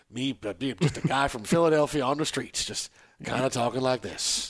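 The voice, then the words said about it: Put-on Elvis-style accent. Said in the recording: “take over the Elvis role ... take that accent away ... That accent off ... talk with a different accent”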